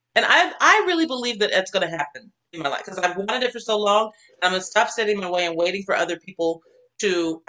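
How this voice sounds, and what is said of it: Very fast excited speech. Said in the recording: “I'm talking so fast when I get excited.”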